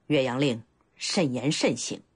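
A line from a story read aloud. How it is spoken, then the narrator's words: Deep, surprised, grave. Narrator (Chinese): 甘茂大是惊讶，沉声道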